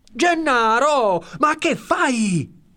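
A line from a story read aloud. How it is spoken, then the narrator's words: Shouted. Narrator (Italian): gridato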